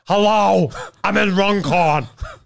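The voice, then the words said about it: Imitates another person's voice. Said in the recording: “That's my Caitlyn Jenner impression.”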